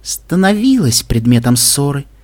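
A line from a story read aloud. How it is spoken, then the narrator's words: Gentle correction. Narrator (Russian): мягко поправила ее Вельвет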